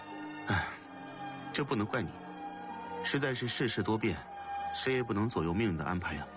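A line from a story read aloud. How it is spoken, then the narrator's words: Sighing. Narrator (Chinese): 叹息一声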